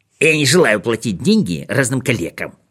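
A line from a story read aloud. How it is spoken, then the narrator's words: Nasty squeaky insistent voice. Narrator (Russian): твердил он своим противным пискливым голосом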